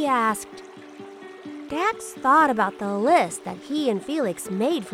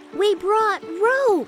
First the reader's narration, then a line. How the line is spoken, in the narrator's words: shouted Dax